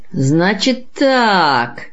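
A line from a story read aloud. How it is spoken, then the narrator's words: Meaningful drawn-out drawl. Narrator (Russian): многозначительно протянул дворник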